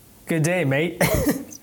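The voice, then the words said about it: Poor attempt at an Australian accent. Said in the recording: “in your best Australian accent ... Terrible, I know”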